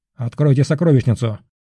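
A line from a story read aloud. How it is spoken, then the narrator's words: Curt menacing irritated bark. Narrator (Russian): Коротко, но весьма грозно рявкнул Орион, и в его голосе проскользнуло раздражение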